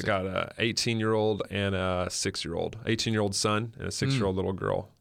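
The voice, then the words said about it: Non-Australian accent. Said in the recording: “So by your accent, I'll take it that you were not born in Australia?”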